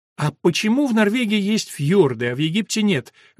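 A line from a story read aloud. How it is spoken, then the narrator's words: Loud. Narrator (Russian): громко обратилась Елена к Билли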